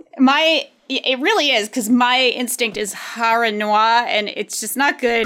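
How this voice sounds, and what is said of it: Accent that struggles with R sounds. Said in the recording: “that many R's in a row for me ... my accent gets in the way here of that”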